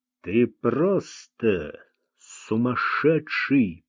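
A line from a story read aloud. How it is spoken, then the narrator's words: Through gritted teeth. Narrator (Russian): процедил Луи сквозь зубы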